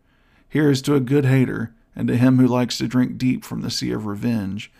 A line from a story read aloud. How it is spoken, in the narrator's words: cried Basil